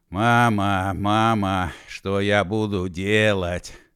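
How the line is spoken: Hoarse singing. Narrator (Russian): хрипло запел Машков

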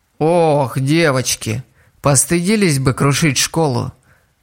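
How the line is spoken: Sighing reproach. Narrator (Russian): вздохнул кто-то за спиной Стеллы

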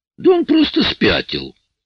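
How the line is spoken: Shrill squeal. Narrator (Russian): взвизгнул Пит

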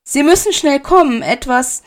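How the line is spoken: Calling out. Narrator (German): rief sie

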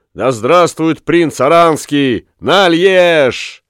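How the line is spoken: Spirited group shout. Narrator (Russian): Уллиншпигель взыграл духом и вместе со всеми фламандцами крикнул

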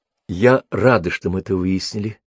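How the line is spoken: Quiet. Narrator (Russian): тихо добавила Брук

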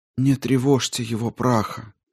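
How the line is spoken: Gloomy reply. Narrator (Russian): уныло отвечала дочь

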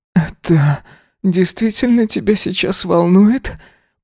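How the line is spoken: Muffled moan. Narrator (Russian): простонал в его рот

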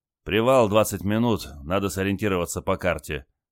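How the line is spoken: Tired announcement. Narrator (Russian): устало объявил моряк

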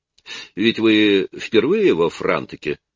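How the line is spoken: Calm. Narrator (Russian): спокойно проговорила она

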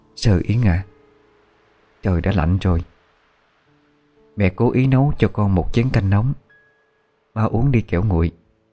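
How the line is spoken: Gentle woman's voice. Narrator (Vietnamese): Người phụ nữ dịu dàng mà nói

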